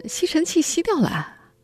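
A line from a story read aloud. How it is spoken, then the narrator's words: Playful grinning tone. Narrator (Chinese): 丈夫嬉皮笑脸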